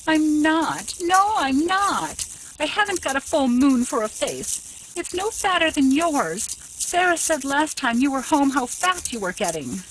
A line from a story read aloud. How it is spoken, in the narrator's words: At Laura's brutal statement of the truth, she cried bitterly